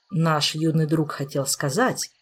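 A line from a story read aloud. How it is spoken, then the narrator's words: Gentle correction. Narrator (Russian): мягко поправил мэтр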